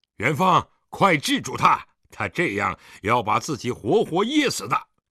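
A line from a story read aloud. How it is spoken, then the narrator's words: Stern harsh shout. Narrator (Chinese): 狄仁杰面沉似水，厉声喝道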